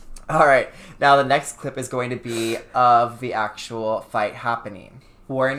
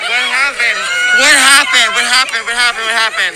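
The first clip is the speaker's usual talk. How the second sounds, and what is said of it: Annoying, frantic shouting voice. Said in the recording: “my voice is super annoying in this video”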